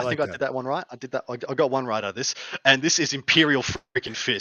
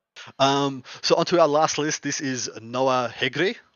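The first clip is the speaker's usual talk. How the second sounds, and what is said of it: Puts on an accent. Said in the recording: “Ooh, that was good. Good accent there.”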